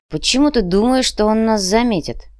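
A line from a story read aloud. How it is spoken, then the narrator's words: Grumbling. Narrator (Russian): проворчал Артём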